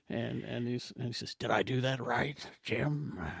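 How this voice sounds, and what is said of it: McCoy impression. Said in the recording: “You do an incredible McCoy impression.”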